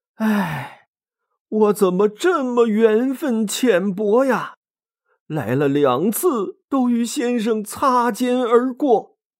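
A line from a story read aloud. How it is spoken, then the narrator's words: Disappointed long sigh. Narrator (Chinese): 刘备失落的长叹一声，说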